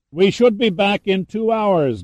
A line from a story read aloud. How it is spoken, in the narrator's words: Gunn yelled back over the sound of the rotors and the engine exhaust